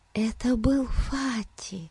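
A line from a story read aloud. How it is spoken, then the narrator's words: Whisper. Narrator (Russian): прошептала она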